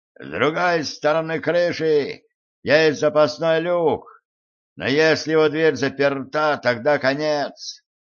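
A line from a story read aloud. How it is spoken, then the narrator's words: Shouted into ear. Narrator (Russian): Видаль прокричал мне в ухо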